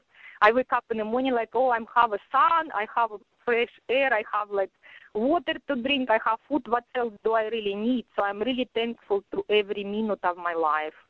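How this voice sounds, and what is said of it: Strong Russian accent. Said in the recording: “has a very strong Russian accent”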